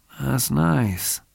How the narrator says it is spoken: Spade said softly

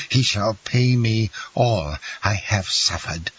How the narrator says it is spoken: cried the young man

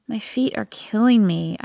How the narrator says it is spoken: I groan

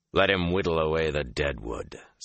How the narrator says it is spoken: Samael said gruffly

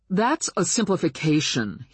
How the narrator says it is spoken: he said hotly

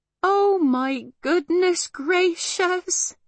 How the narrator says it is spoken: moaned Homily again

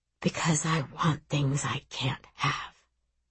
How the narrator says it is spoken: he whispers

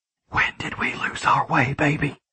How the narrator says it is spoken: I whispered

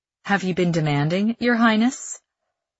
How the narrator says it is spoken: He chuckles low in his throat

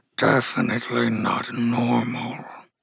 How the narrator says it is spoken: Romulus said, his voice coming out as a partial growl

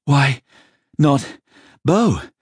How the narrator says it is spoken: Simon panted

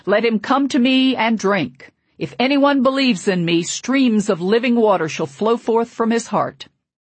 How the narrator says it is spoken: my father shouted

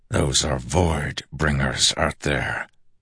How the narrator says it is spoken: Dalinar hissed

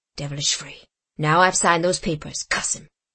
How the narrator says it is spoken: muttered Haley to himself

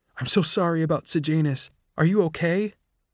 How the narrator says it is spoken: she asked breathlessly

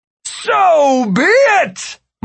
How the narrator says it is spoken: Martin bellowed

